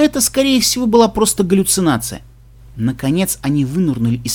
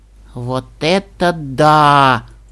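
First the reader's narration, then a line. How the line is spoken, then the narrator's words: Admiring drawn-out exclamation. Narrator (Russian): восхищенно протянула Ди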